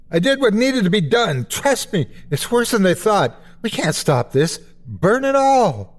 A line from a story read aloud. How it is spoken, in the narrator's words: He screams